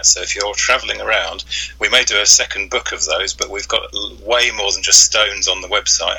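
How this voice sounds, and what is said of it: Speaks with a regional accent. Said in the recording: “That must be my accent”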